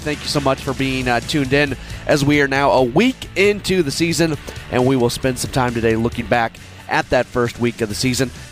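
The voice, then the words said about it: Voice off, sounds like a cold. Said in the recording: “my voice is not exactly 100%. I am fighting a cold”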